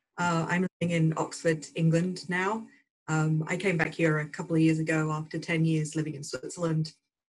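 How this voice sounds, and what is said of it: British English accent. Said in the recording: “as some of you have probably guessed from the accent, over the pond.”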